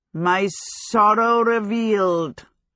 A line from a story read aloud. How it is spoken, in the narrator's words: Howl said pathetically